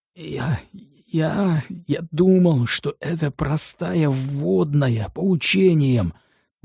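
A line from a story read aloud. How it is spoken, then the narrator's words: Groaning prisoner. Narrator (Russian): застонал арестованный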